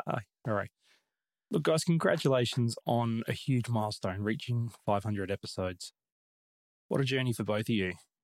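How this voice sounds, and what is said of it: Australian accent. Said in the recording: “down under ... Another ... accent. ... your favorite all-time Australian”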